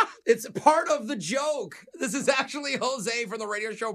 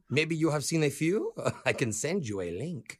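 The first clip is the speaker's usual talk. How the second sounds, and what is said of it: Put-on accent. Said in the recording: “What just happened to your accent?”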